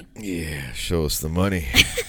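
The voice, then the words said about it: Creepy put-on voice. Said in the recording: “don't do that creepy ass voice. It's so gross.”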